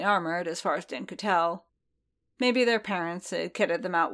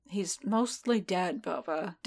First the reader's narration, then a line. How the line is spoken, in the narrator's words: Din muttered